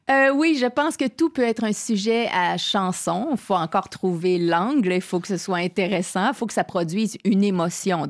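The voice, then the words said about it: Québécois French accent. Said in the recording (French): “vous êtes québécoise ... oui, ça s'entend un peu. un tout petit peu ... je trouve ça génial, l'accent”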